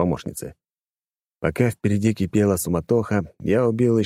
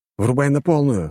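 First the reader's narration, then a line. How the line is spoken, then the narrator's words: Plain. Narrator (Russian): сказал я Лоре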